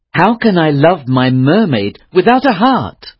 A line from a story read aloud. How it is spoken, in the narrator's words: he cried